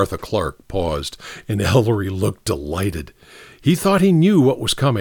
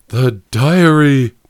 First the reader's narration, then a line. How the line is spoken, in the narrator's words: moaned Professor Shaw